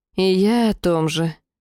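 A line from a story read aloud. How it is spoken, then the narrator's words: Heavy sigh. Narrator (Russian): овцерогая тяжело вздохнула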